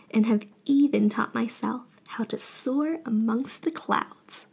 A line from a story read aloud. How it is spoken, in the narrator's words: Wukong laughed